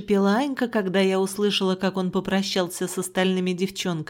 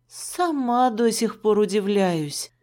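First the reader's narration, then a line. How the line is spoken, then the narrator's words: Sighed. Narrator (Russian): вздохнула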